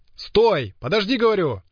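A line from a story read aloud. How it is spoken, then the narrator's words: Shouting after someone. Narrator (Russian): крикнул пригоршня вслед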